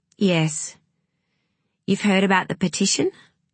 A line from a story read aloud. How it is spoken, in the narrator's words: she asked Madeline, trying to keep her voice steady